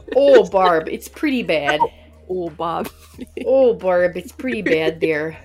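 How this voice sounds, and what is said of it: Put-on Minnesota accent. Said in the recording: “like a Minnesota accent ... I do the accent.”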